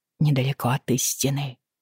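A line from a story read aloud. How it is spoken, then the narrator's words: Stunned mumble. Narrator (Russian): пробормотала она, слегка обалдев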